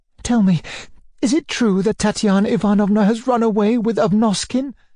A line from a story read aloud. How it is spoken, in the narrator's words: she asked hurriedly in a breaking voice, looking pale and frightened